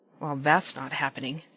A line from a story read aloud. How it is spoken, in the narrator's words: Dean mutters